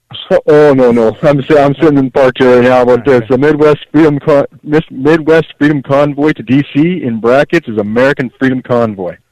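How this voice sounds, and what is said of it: Canadian English accent. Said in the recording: “even with the Canadian accent that I'm dying to make fun of”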